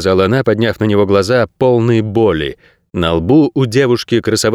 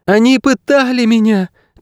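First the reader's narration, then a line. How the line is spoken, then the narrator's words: Breaking cry, then sobbing. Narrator (Russian): крикнула срывающимся голосом и зарыдала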